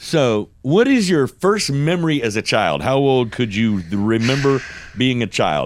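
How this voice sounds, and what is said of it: Usual voice. Nothing is said of it.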